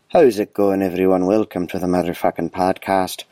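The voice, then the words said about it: Put-on Irish accent. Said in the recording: “I'm in Ireland, so this is just how I freaking talk now... I don't know where my accent's going from here.”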